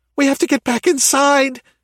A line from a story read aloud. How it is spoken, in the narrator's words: Anna shrieked